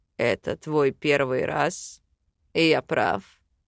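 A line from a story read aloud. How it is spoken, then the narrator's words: Quiet question. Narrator (Russian): тихо спросил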